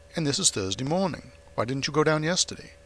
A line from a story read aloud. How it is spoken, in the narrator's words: I exclaimed